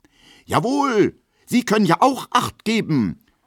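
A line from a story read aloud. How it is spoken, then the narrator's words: Manly indignant call. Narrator (German): ruft er in männlicher Entrüstung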